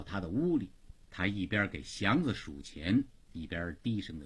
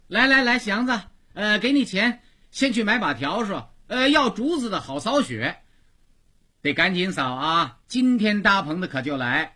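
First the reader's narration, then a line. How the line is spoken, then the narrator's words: Calling out. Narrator (Chinese): 虎妞往外叫他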